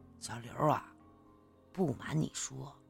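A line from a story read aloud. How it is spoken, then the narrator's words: Sighing, lowered voice. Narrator (Chinese): 陈伟呢叹了口气，这才压低声音对我说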